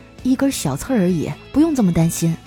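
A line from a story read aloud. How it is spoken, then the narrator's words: Soft, touched voice. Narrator (Chinese): 嫂子很是感动啊，轻声的说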